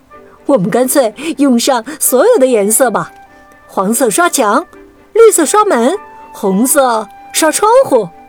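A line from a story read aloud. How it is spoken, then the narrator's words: Laughing. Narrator (Chinese): 皮卡西笑着说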